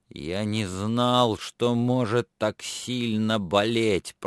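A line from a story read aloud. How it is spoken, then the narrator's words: Moaning in pain. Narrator (Russian): простонал он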